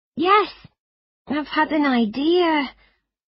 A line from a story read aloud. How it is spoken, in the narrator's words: began nervously